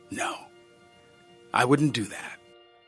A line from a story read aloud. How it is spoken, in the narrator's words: I said